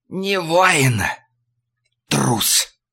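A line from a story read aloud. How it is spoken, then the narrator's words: Hoarse breath into ear. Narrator (Russian): Тот захрипел … выдохнул в ухо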